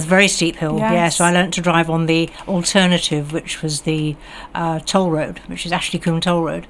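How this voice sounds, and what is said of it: Posh BBC-style English accent. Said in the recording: “You don't have an Oora twang... I used to have an Oora twang... No, I've got a frightful BBC accent”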